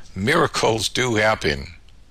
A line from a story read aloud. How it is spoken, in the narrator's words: she called out